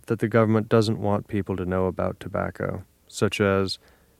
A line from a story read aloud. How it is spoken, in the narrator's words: Nick sighed